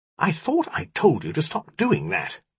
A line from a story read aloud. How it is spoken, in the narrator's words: he snapped